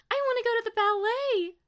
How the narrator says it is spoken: Stella squealed next to her

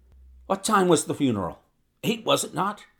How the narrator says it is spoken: he asked eagerly

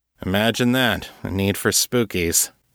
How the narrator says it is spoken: Brian said dryly

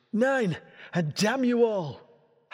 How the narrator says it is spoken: Grimtongue shouted

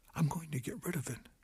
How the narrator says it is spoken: she almost whispered

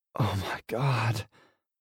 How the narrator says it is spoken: she moans deeply

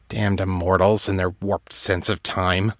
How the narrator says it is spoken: Kate grumbled

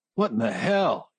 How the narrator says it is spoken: he shouted

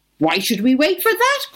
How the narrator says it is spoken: cried his friends

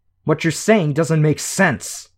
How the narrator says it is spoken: Shadowstalker snarled

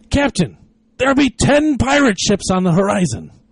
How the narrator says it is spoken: the lookout cried

